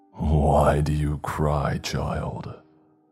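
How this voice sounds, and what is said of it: Deep raspy voice. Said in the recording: “a deep, raspy voice asked”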